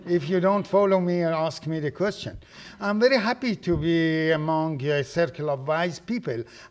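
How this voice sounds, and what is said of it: Non-native immigrant English accent. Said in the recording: “I apologize for my accent. There is a saying that an immigrant is a person who has lost everything except the accent.”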